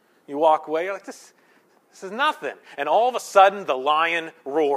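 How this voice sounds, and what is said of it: Usual voice. Nothing is said of it.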